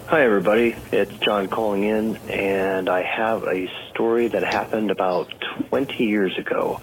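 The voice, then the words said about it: Polished radio-style voice. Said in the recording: “has a total great radio voice”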